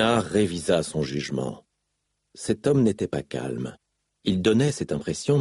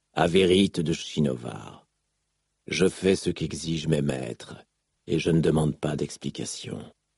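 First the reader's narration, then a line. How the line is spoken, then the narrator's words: Rough male reply. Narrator (French): répondit l'homme d'une voix rude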